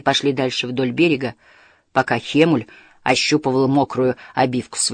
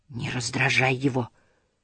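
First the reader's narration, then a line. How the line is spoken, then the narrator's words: Small creature whispering. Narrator (Russian): прошептал маленький зверек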